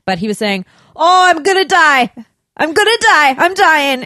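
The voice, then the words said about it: Imitated Scottish accent, deliberately bad. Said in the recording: “he had a bit of a Scottish accent, which I will butcher now”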